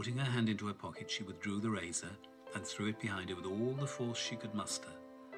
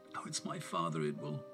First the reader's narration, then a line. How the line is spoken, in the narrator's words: moaned